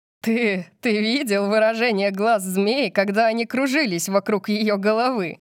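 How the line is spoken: Loud laughter. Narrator (Russian): Тайлер Корбин расхохотался

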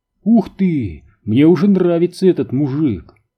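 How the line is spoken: Exclaimed. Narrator (Russian): воскликнул гус

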